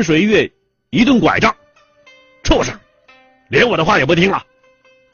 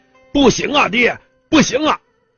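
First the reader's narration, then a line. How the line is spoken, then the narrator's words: Loud shout. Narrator (Chinese): 陈天清大喊呐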